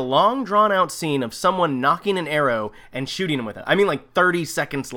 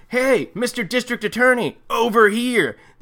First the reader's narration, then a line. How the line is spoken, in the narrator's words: Someone shouts